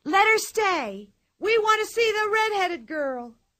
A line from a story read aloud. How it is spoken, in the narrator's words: all the people shouted